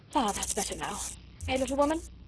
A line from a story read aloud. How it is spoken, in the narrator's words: he said with a sigh of satisfaction